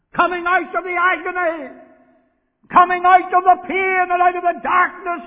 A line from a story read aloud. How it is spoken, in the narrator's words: he cried